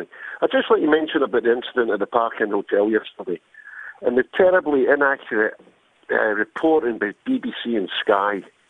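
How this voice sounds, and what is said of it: Glaswegian Scottish accent. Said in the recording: “You've still got the accent. ... You can take a man out of Glasgow, but not Glasgow of the man.”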